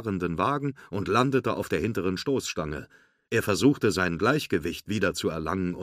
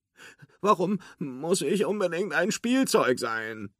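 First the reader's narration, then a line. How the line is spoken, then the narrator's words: Whining. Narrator (German): jammerte Forky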